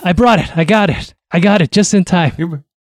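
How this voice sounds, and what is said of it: Breathless, panting speech. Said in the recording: “why are you so out of breath?”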